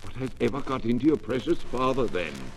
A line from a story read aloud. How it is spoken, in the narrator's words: said Mrs